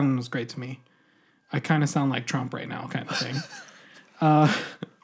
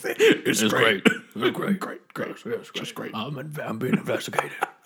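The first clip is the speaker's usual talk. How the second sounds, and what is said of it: Imitates another person's voice. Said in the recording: “Is that your Trump impression?”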